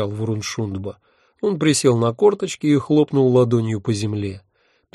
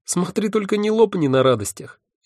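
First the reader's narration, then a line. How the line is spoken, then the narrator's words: Snide advice. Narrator (Russian): ехидно посоветовал мой благодетель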